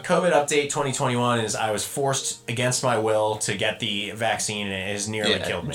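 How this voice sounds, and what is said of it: Hoarse, sick-sounding voice. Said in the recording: “My throat is hoarse. I'm sick.”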